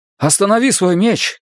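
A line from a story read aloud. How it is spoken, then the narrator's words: Shout. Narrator (Russian): крикнул я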